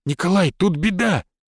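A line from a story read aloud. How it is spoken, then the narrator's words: Frightened exclamation. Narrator (Russian): испуганно воскликнул он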